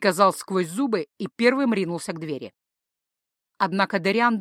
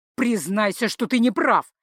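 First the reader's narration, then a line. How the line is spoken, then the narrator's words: Barked. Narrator (Russian): рявкнул Тацу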